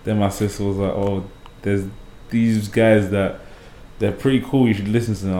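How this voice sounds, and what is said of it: UK British accent. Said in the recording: “I need to find how to keep my UK accent ... everything's all British”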